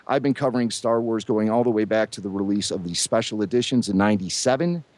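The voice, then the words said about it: Fast, excited speech. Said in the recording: “you can hear it in my voice. I'm just so excited. I'm like bursting at the seams ... you're talking so fast”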